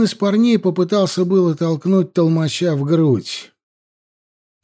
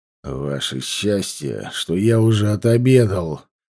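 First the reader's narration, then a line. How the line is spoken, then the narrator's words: Growl. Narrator (Russian): прорычал толмач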